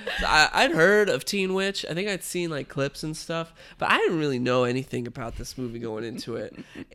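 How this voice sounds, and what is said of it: Congested, nasal voice. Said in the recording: “I'm a little I'm a little congested right now ... I can't really like breathe through my nose right”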